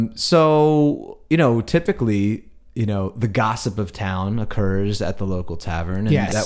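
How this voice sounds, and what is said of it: Usual voice. Nothing is said of it.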